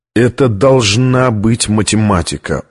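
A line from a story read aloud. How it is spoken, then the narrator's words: Dejected voice. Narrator (Russian): упавшим голосом сказал он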